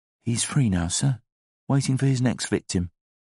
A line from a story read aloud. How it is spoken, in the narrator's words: the barman whispered